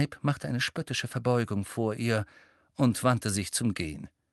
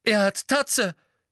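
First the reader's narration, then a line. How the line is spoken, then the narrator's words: Calling out. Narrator (German): rief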